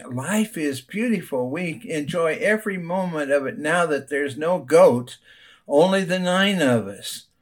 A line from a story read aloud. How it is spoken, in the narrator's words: A radiant man exclaiming